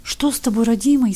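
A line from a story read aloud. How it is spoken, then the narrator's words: Frightened old woman babbling. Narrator (Russian): испуганно лепетала старуха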